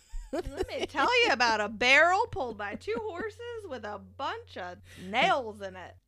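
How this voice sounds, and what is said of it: Put-on Southern US accent. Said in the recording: “we're talking Southern”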